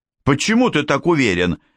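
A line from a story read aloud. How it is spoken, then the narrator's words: Sharp question. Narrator (Russian): резко спросил Франк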